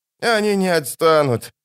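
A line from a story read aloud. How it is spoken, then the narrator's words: Ferryman's groan. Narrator (Russian): застонал паромщик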